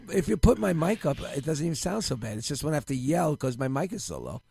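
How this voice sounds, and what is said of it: Hoarse, strained voice. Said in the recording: “I have a little laryngitis ... You sound like a kid ... Sounds like I'm hoarse.”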